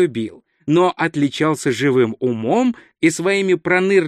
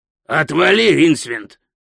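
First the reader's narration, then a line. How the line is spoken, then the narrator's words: Barking. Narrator (Russian): рявкнул Пузан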